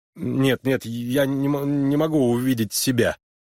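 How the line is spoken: Stammering interruption. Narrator (Russian): заикаясь, прервал ее Харлан

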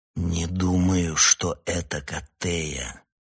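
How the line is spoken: Slow, determined. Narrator (Russian): медленно проговорил я, вложив в эти слова всю свою волю

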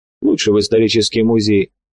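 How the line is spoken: Sad smiling voice. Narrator (Russian): грустно улыбнулся Виктор

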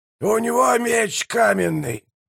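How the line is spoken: Hoarse wheeze. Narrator (Russian): прохрипел прищур

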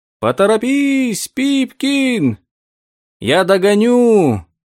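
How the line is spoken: Shouting from afar. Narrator (Russian): закричал он издалека

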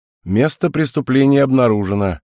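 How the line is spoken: Wry snort. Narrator (Russian): хмыкнул Деймос

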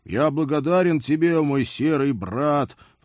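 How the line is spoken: Muffled drawl. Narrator (Russian): глухо протянул я

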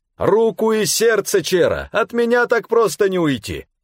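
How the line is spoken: Laughing loud shout, man. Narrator (Russian): военный с хохотом, повысив голос, крикнул

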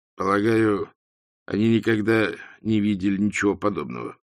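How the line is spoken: Weak, tentative voice. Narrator (Russian): слабым голосом предположил Ринсвинд

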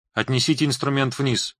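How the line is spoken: Half-whispered order. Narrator (Russian): полушептом распорядился Рига

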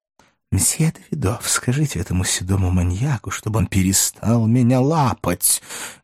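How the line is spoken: Menacing embarrassed hiss. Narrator (Russian): грозно зашипел красный, как девственница Гетальс, подвергнутый столь же унизительной процедуре

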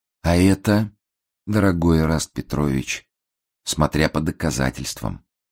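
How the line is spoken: Gentle, pleased. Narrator (Russian): ласково ответил обвиняемый, кажется, очень довольный предложенной игрой

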